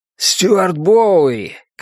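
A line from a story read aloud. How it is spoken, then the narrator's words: Shout. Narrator (Russian): крикнул он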